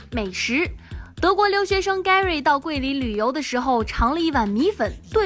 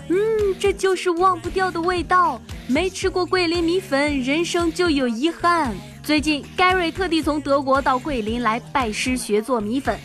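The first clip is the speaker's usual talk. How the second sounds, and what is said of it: Imitated foreign accent, sounds Xinjiang-like. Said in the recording (Chinese): “模仿这外国口音说话，你咋听着跟离新疆不远呢”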